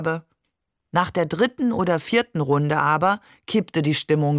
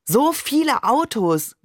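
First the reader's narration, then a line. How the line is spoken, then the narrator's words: Calling out. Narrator (German): rief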